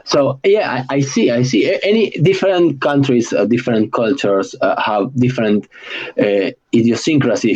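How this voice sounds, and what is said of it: Argentinian accent in English. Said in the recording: “my English, and anybody who knows an Argentinian will say, yeah, he is Argentinian ... because of my accent”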